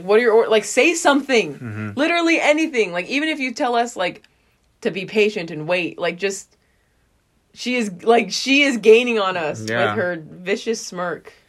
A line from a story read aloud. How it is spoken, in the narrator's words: everyone's just screaming at Levi